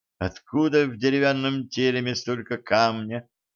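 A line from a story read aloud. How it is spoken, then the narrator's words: Mutter. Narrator (Russian): пробормотала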